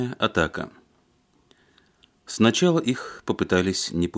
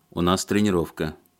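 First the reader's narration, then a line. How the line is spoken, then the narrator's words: Said rather rudely. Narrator (Russian): довольно-таки грубо сказал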